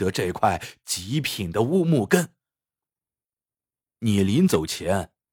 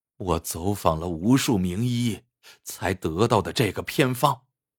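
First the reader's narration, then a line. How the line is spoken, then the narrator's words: Long lamenting sigh. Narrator (Chinese): 陈文业仰天长叹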